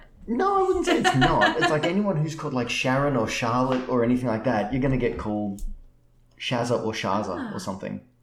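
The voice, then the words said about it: Australian accent. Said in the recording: “I'm an Australian ... It's an Australian accent”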